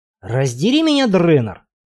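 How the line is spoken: Growl. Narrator (Russian): прорычал он

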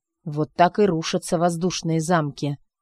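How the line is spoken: Grumbled. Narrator (Russian): буркнул он

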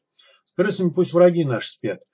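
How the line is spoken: Sighing madman. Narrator (Russian): вздохнул псих

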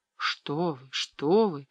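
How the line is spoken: Babbling. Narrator (Russian): пролепетала

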